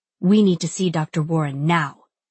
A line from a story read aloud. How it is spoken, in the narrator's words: she hisses